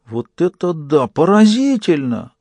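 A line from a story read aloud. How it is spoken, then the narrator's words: Shrill squeal. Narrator (Russian): взвизгнул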